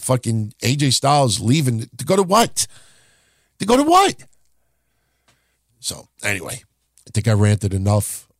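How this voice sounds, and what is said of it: Hoarse, strained voice. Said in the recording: “I'm starting to lose my voice a little bit”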